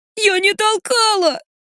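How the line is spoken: Sobbing. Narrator (Russian): всхлипывает Лерка

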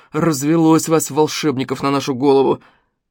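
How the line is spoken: Hateful grumbling. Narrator (Russian): с ненавистью проворчал Смешарин

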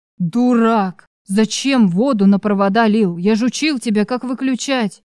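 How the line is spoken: Growl. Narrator (Russian): Прорычал Некрас

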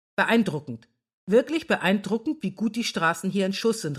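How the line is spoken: Calling out. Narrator (German): rief August

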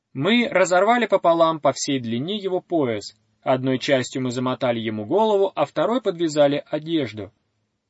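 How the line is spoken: Plain. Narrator (Russian): ответил Мила

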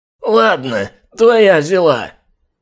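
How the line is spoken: Hoarse, grudgingly yielding man. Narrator (Russian): просипел владелец питомника, проявляя нетипичную для него покладистость

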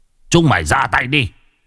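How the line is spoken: Father's urgent shout. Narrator (Vietnamese): Người cha biết là sự tình đã nguy hiểm liền quát

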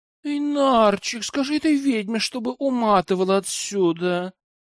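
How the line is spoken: Sickly sweet voice. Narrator (Russian): Лайна приторным голоском заговорила

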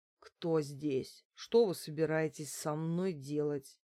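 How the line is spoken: Groaning slurred question. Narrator (Russian): застонал и, еле ворочая языком, спросил

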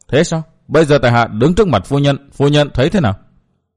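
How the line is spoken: Cold question. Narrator (Vietnamese): Tây Môn Lệ lạnh lùng hỏi lại

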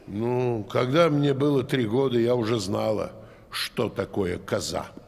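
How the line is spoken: Grumbling. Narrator (Russian): проворчала Зубейда

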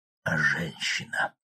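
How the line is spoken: Breathy, suddenly hoarse, quiet. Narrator (Russian): с придыханием, внезапно охрипшим голосом тихо уточнил Альзаир

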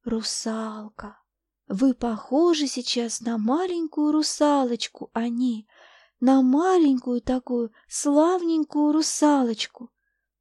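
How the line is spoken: Soft, tender voice. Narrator (Russian): говорила она тихим, нежным голосом

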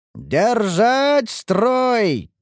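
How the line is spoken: Commander shouting. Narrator (Russian): кричал командир защитников Ингарда

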